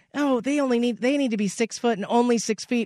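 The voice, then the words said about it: Imitates a woman's voice. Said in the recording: “That was your lady impersonation... that's your lady voice”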